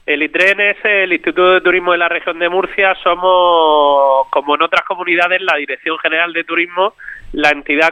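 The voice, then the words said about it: Southern Spanish accent. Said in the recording (Spanish): “Me encanta oír ese acentito... Se parece mucho al acento del sur, como nosotros los canarios”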